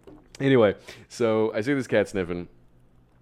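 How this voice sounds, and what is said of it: Usual voice. Nothing is said of it.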